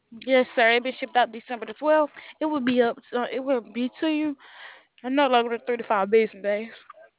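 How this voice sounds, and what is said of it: Southern American accent. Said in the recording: “That's a real nice southern accent you got there.”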